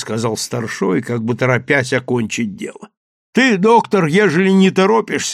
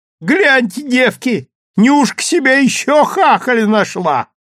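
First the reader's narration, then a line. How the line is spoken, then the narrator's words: Shrill shout. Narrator (Russian): визгливо крикнула одна из попутчиц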